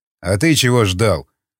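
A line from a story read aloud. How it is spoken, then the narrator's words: Snorting. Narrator (Russian): хмыкнул варяг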